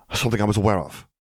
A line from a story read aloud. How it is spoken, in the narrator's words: Gellert returned irritably